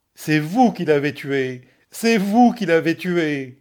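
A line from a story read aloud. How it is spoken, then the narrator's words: Shouting. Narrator (French): cria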